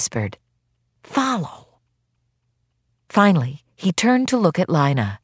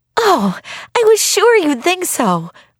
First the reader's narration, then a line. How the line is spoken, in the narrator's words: Lina cried